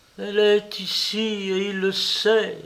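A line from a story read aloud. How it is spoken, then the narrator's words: Moaning. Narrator (French): gémit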